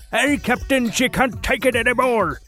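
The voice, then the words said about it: Bad Scottish accent, Scotty impression. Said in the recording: “It's a terrible Scottish accent, sorry. Or Irish, or whatever.”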